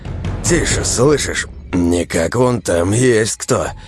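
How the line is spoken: Low angry growl. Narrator (Russian): Сирка зарычал тихо, но зло

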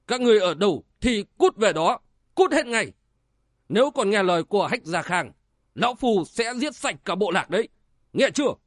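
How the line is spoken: Shouting. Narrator (Vietnamese): Sinh tử phán quan chữ thiên nhẫn tới gần quát lên

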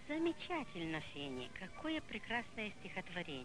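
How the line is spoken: Plain. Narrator (Russian): сказала бабушка

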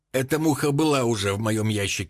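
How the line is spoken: Plain. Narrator (Russian): ответил энтомолог

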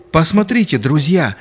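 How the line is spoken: Joyful exclamation. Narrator (Russian): радостно восклицал Хабиб

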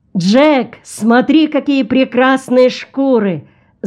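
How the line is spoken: Tourist shouting. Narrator (Russian): закричал один из туристов

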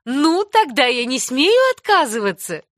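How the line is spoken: Laughing. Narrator (Russian): засмеялась миссис Аллан

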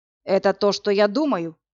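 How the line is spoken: Grim question. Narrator (Russian): мрачно спросил Власик

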